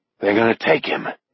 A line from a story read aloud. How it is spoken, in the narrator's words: Beezer murmurs